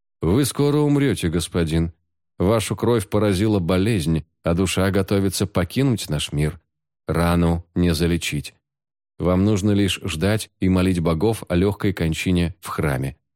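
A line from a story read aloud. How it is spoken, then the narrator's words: Calm. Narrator (Russian): спокойно сказал лекарь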